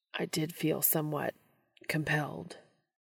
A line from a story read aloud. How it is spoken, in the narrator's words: Castiel mutters